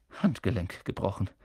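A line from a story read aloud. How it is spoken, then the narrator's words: Murmured. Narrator (German): sie murmeln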